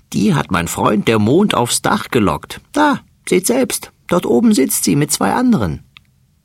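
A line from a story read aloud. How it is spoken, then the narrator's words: Laughing fat mouse. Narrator (German): lacht der dicke Mäuserich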